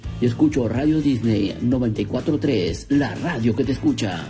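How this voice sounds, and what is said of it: Radio announcer voice. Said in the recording (Spanish): “Al final sacó su voz de locutor.”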